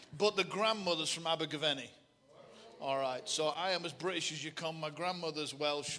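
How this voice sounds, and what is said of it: Bolton English accent. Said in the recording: “the accent's Bolton”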